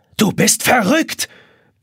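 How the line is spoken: Yelling. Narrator (German): brüllt Jonas

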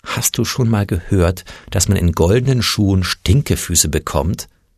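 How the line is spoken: Mother sighing. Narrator (German): Mutter seufzte

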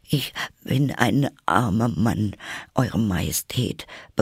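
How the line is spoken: Trembling voice. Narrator (German): begann der Hutmacher mit zitternder Stimme

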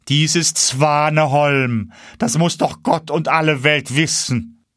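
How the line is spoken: Called out. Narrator (German): rief

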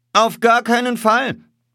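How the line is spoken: Firm shout. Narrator (German): rief entschieden

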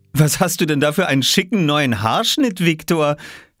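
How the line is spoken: Laughing. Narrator (German): lachte Mama

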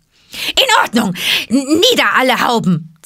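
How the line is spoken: Hissing chorus of voices. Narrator (German): zischte ein halbes Dutzend Stimmen

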